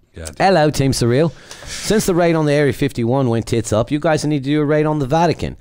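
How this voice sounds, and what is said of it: Put-on British accent. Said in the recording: “I'll probably, in his honor, read this in a British accent.”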